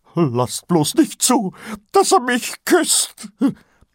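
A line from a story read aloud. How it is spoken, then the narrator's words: Squeak. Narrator (German): quiekte Kolon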